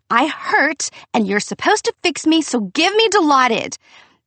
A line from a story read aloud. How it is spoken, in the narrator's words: No one believed me, and so I screamed